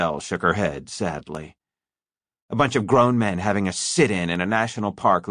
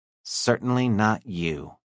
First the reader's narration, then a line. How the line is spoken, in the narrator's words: she said icily